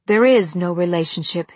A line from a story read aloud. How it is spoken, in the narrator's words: he snapped